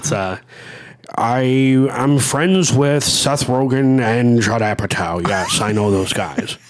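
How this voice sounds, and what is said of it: Imitates another person's voice. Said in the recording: “my Jay Baruchel impression ... this is my Jay Baruchel”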